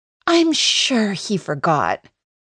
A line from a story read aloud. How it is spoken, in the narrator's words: she says in a super patronizing voice